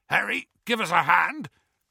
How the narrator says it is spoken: called Hagrid hoarsely

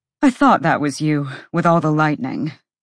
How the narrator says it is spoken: Therian panted

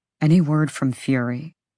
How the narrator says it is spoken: Hunt said softly

